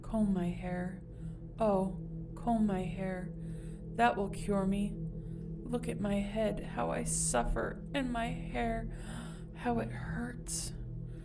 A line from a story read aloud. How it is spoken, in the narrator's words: murmured